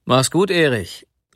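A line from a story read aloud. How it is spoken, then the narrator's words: Calling after departing man. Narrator (German): rief er noch dem jungen Manne nach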